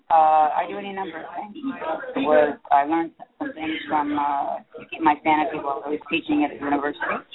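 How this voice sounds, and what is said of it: Hoarse, froggy voice. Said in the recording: “my voice is all froggy ... Just a froggy voice.”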